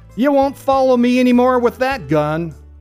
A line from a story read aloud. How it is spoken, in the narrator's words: the Kid shouted